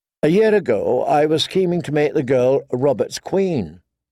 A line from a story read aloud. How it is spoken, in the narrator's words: Renly said